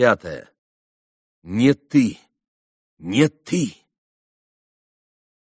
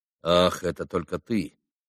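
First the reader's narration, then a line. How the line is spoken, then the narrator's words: Dry. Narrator (Russian): сказал сухо Иван Федорович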